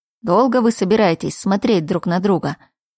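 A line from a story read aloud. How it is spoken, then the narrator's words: Fed-up grumbling. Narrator (Russian): В итоге это все надоело юншину, который пробурчал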